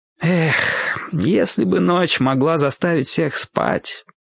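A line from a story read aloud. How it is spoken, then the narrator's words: Sad sighing knight. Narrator (Russian): грустно вздохнул рыцарь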